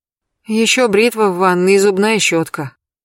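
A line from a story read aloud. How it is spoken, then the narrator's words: Sorrowful sigh. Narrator (Russian): горестно вздохнула Елена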